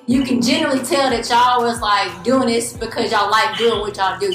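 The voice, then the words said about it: Carolina twang, Southern US accent. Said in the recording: “I'm from the Carolinas, so we got that Carolina twang up here”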